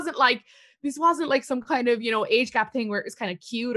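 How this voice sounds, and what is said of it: Usual voice. Nothing is said of it.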